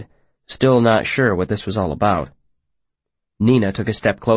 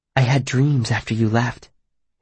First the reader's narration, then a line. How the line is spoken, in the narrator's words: she said, her voice low and confidential